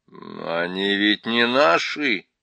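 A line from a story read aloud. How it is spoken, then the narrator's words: Hesitant drawl. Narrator (Russian): нерешительно протянул Питер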